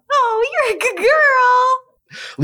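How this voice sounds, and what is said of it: Higher-pitched pet-talk voice. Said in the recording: “Believe it or not, it's higher than it is already.”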